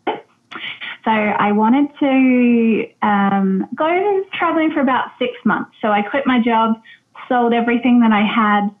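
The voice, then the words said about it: Australian accent. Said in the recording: “as you can probably tell by my accent. So um, I'm Australian”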